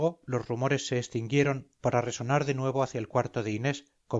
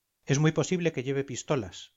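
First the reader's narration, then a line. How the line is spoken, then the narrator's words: Plain. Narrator (Spanish): dijo el diplomático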